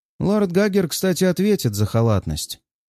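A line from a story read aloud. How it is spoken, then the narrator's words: Lazy, matter-of-fact remark. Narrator (Russian): замечает багровый властелин лениво, почти буднично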